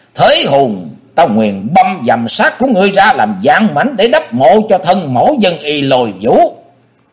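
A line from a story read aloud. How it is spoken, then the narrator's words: Old demon roaring. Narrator (Vietnamese): lão ma gầm lên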